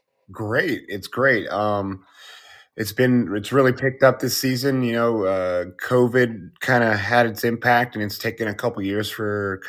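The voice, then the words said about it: Scratchy, strained voice. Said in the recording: “My voice is a little scratchy. We've been yelling at people at the haunted house in Oatman for the last 2 days, so my throat is a little messed up.”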